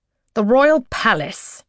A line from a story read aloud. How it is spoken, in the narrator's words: Garnet says through gritted teeth